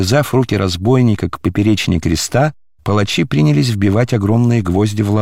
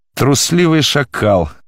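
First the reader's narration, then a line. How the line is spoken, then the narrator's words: Warriors laughing. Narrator (Russian): засмеялись воины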